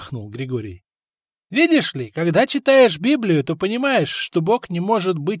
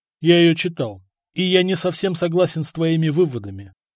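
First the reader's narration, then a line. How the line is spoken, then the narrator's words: Calm reply. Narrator (Russian): спокойно ответил Самослав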